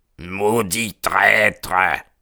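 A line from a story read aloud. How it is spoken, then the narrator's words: Hissed through teeth. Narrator (French): siffla McGinty entre ses dents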